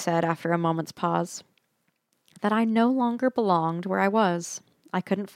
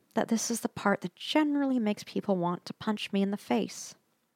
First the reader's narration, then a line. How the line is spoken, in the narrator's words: Lucy said quietly